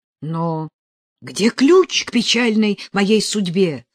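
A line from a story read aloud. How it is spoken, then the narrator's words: Agitated exclamation, then lowered. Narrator (Russian): с волнением воскликнул Росков, но тут же понизил голос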